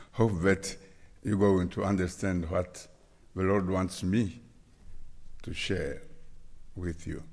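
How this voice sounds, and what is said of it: Congolese-accented English. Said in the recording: “my Congolese accent of English”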